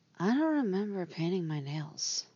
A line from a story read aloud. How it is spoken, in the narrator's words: she murmurs